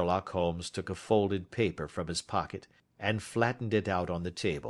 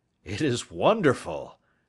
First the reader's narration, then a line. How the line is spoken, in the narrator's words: I exclaimed